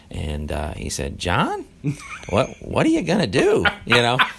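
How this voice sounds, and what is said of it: Impression of Coach Smith. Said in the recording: “good Coach Smith impression ... That's close.”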